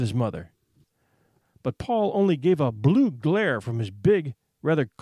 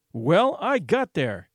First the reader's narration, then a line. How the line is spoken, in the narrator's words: he announced fiercely